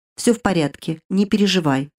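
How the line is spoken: Even-voiced man. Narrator (Russian): ровным голосом ответил мужчина

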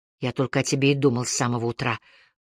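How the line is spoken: Intimate whisper. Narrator (Russian): прошептал мне в шею

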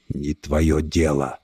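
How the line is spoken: Quiet monster. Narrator (Russian): тихо ответил монстр

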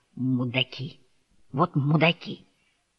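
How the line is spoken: Hoarse wheeze. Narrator (Russian): прохрипел

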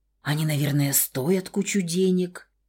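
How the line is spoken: Muttering to herself. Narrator (Russian): бормотала скорее себе, чем ему

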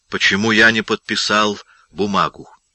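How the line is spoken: Quiet, calm voice. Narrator (Russian): говорил он тихим, спокойным голосом

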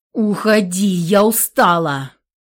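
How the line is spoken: Young woman's angry bark. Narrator (Russian): зло рявкнула девушка

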